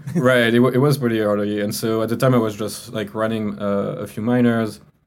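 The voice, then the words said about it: French accent. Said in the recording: “you can hear from my accent, right? I'm not from the US. I'm from France.”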